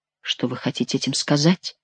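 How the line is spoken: Mutter. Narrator (Russian): пробормотал он

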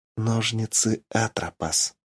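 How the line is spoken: Ominous whisper. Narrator (Russian): зловеще прошептала Ольга

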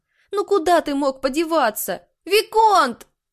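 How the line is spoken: Shouting at full strength. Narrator (Russian): Заорала она, что было силы

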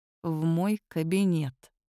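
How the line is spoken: Through gritted teeth. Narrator (Russian): процедил Киллиан

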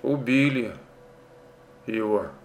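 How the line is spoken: Sighing, quiet. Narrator (Russian): вздохнула, тихо сказала

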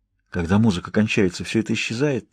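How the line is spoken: Whisper. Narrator (Russian): прошептал я

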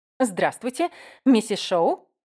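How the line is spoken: Joyful. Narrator (Russian): радостно улыбнулась

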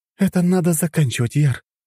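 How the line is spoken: Weary exhale. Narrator (Russian): Моргана выдохнула

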